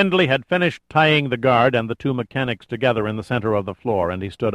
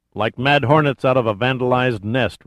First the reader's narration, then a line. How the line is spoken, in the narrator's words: replied Pitt